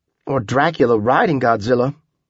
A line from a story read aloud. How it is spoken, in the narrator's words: Tripp said